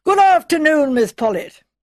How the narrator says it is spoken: jolly, shouted out in her usual loud bass voice

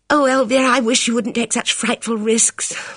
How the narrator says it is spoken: moaned Bridget

